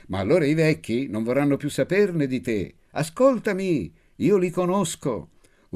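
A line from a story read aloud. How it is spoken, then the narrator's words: Smug yelling. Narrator (Italian): urlavo, compiacendomi del mio spirito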